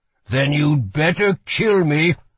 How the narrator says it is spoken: growled Holland

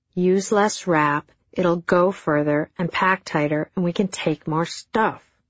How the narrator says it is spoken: he snarled in return

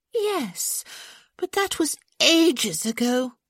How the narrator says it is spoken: Hyacinth said with a dramatic sigh

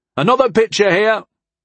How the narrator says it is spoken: Pignot called out

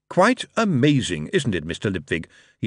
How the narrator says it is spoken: said cheerfully through the smoke

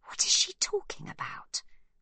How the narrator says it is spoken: Livy whispers

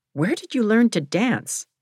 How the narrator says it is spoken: my father exclaimed

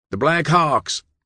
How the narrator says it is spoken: Maury cried

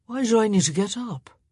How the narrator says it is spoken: He slurred

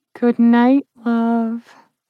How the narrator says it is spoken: Trish said in a purr

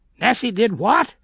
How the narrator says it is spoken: screeched Nanny

